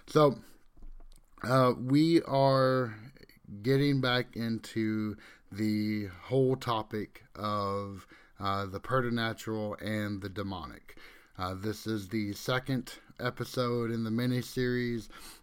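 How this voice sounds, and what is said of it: Croaky, sniffly sick voice. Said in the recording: “if you hear the occasional sniffle on this episode... my voice sounding like a chorus of bullfrogs”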